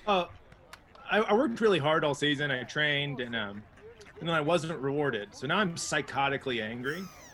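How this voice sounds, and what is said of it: Calm flat tone despite claimed anger. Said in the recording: “You can't tell by my tone, but I've never been more mad in my life”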